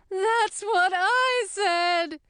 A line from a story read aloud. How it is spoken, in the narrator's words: wailed the queen